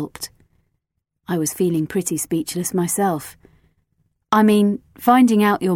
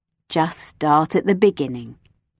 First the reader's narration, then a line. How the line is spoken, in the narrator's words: Marla said firmly